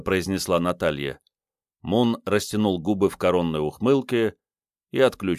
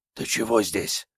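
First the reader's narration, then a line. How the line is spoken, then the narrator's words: Whispered question. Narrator (Russian): спросил он шепотом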